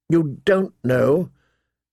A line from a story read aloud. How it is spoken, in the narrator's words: John said bitterly